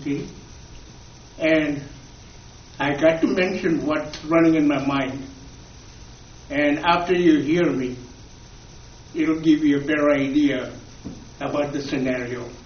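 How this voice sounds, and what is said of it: Foreign accent in English. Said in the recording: “if you notice my accent, I came to this great country 60 years ago.”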